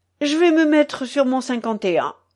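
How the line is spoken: Eager exclamation. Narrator (French): s'écria Désiré

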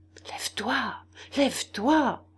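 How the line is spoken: Anxious male murmur. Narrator (French): murmura-t-il d'une voix inquiète

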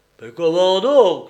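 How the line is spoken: Exclaiming fat man. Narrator (French): s'écria le gros Nestor

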